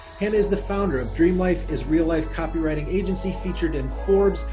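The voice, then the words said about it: Midwestern American accent. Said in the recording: “the accent is so heartwarming to me ... I always just feel at home when I get to talk to a Midwesterner.”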